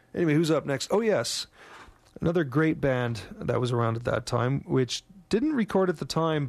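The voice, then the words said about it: Strained, fading voice. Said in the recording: “I'm losing my voice here”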